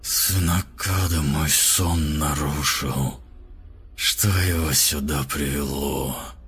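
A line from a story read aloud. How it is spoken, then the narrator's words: Cracked, hollow, growing louder. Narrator (Russian): Голос звучал надтреснуто и глухо, словно из бочки, однако становился все громче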